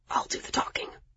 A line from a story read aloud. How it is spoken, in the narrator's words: Miles whispered urgently, obviously feeling the same stress